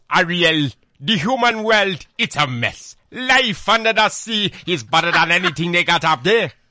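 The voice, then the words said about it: Impression of Sebastian from The Little Mermaid. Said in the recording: “I want to hear you do Sebastian from The Little Mermaid”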